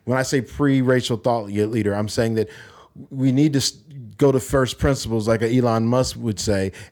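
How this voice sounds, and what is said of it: American accent. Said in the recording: “I'm sure people have guessed by your accent that you are American.”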